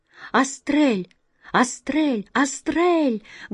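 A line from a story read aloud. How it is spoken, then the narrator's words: Loud, disbelieving joyful shout. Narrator (Russian): громко крикнул Гвен, еще боясь поверить в свое счастье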